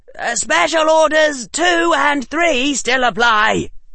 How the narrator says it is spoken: shouted Harry

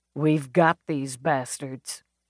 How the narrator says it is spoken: Baxter muttered

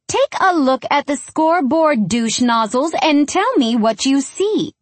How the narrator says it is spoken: she chirps

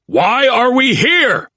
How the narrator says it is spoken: His unanswered bellow

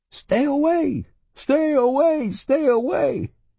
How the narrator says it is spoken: I woke up shouting

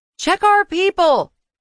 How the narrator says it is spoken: I called out

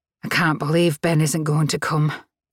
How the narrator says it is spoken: Claire leaned over and said sadly

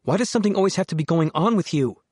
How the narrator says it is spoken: She snapped

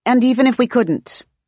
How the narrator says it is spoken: Jess blurts, as she obviously thinks Bronca's getting off track

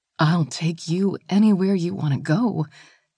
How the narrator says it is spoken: Gina whispered back

